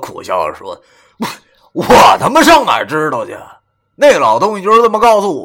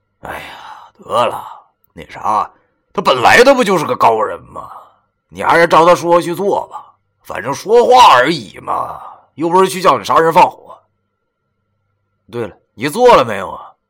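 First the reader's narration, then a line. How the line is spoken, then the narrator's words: Sighing. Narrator (Chinese): 我又叹了口气说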